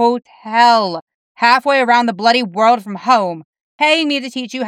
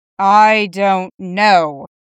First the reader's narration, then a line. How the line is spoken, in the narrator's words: Constantine says flatly